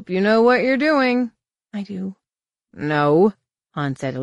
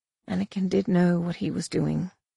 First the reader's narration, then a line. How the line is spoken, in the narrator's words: Tahiri said softly